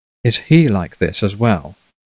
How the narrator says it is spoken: Meriwether asked, his voice gentle as warm flannel

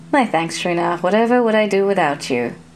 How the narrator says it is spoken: the girl said flatly

